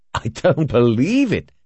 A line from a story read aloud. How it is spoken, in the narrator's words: exclaimed